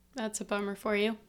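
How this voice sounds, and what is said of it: Sarcastic tone. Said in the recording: “that was sarcastic ... Maybe a little bit.”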